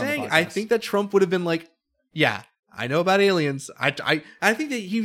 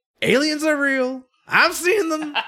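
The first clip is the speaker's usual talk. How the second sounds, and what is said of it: Imitates another person's voice. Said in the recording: “doing your Trump impersonation”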